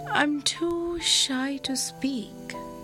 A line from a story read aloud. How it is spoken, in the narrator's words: Bilal whispered